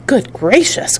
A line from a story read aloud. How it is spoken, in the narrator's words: cried Charlie